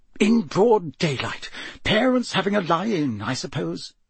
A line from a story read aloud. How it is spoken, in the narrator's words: he muttered distractedly